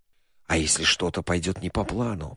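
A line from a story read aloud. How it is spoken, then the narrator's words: Whisper. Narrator (Russian): прошептал кондуктор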